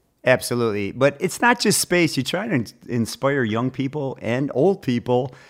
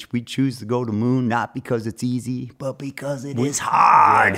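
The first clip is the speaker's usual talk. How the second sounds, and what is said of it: Put-on Boston accent. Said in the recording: “You work on your Boston accent. ... Yeah, I can fake it a little bit better.”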